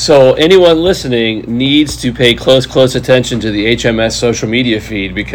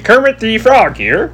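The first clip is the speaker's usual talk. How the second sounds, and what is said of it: Good Kermit the Frog impression. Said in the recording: “That was a really good impression. ... That was really good.”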